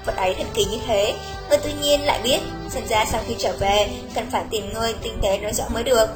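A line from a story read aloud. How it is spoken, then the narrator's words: Quiet, amused surprise. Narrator (Vietnamese): Xuất Trần trong mắt vừa kinh ngạc vừa buồn cười, nói nhỏ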